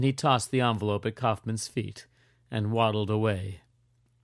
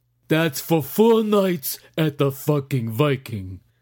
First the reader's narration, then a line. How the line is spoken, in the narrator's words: bellowed Hardy